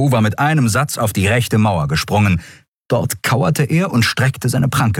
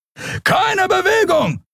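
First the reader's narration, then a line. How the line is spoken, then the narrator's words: Shouted command. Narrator (German): schrie ein Weißmantel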